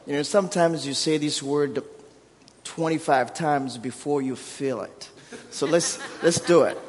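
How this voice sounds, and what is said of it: Thick African accent in English. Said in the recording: “I'm from Africa, so my primary language is Kirundi, and then Swahili, and then Kibembe, and then French. So English somewhere 7 or 8. So I have a thick accent”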